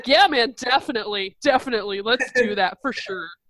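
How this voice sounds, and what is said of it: Imitates another person's voice. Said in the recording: “That's my Ricky impression.”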